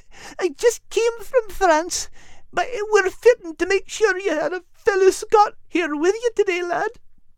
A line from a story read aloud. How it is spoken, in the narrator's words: Kate whimpered